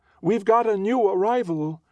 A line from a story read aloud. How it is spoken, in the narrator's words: she shouts sing-song